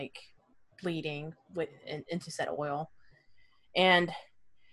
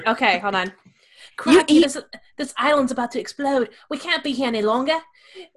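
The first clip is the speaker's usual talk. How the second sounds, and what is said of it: Put-on accent. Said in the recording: “I'm not going to do an accent. ... do it. Do it.”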